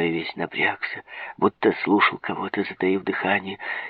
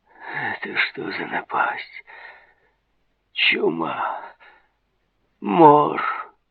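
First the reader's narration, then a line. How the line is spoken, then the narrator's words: Anguished moaning. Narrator (Russian): ломая руки, стонал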